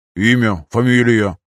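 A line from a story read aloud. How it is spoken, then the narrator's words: Through gritted teeth. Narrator (Russian): процедил Эдвард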